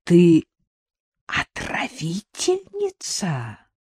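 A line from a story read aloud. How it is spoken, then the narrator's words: Frightening hoarse hiss. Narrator (Russian): прошипела Сонька страшным севшим голосом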